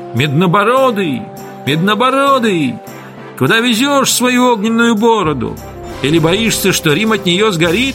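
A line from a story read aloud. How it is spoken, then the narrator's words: Jeering shouts. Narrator (Russian): те, кто это кричал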